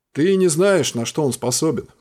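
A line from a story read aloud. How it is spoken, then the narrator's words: Grumbling. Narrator (Russian): проворчал Бурк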